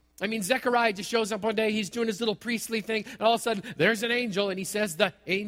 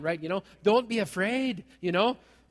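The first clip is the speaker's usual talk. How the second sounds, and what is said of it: Put-on Scottish accent. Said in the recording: “with the Scottish accent, it's got to be there”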